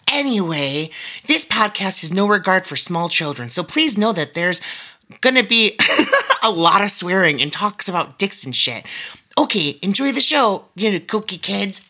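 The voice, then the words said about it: Poor Jennifer Coolidge impression. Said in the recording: “it's me, Jennifer Coolidge. I know this is a terrible impersonation, and I sort of sound like Owen Wilson or Sarah Palin”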